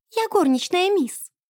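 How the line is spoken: Squeaked. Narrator (Russian): пискнула она

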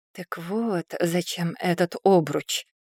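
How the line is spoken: Whispered under breath. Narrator (Russian): прошептала она себе под нос

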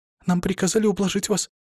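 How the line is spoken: Tearful babbling. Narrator (Russian): пролепетала она, давясь слезами

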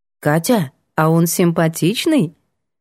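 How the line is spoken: Plain question. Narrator (Russian): спросила мама

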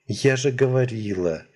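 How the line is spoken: Heavy sigh. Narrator (Russian): тяжело вздохнула девушка

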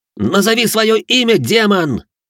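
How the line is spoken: Yelling at monster. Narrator (Russian): заорал, когда в центре комнаты возник страхолюдный монстр

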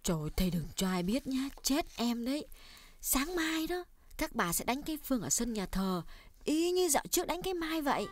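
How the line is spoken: Hushed guilty whisper. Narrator (Vietnamese): Đào biết mình lỡ lời tiết lộ kế hoạch hành quân của mẹ, cô hạ giọng nói nhỏ

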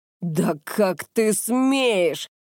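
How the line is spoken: Roaring. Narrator (Russian): взревел Нагамаса

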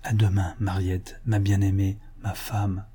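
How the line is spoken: Very quiet. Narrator (French): le jeune homme dit tout bas

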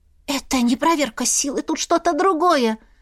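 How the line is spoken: Hoarse, unwell witch. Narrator (Russian): Прохрипела Свияра, ей, как светлой ведьме, сразу стало плохо

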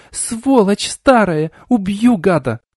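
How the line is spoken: Hysterical louder screaming. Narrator (Russian): она закричала еще громче, забилась в их руках в истерике

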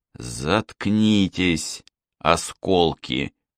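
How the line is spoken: Hissed. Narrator (Russian): прошипел

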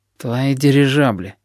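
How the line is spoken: Grumble. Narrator (Russian): проворчал слепой

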